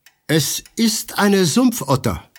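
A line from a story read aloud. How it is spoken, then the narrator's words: Exclaiming. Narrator (German): rief Holmes aus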